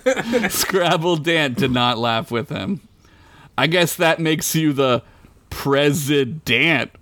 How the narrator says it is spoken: Fred said, doubling down on the joke, hoping to get a laugh this time

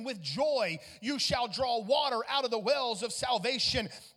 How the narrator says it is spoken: he cries out, which means he shouts with a loud voice

